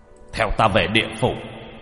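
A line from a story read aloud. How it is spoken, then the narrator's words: Stern shout. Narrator (Vietnamese): Lục sử phẩy trường bào, nhìn quỷ kiểm bà mà quát lên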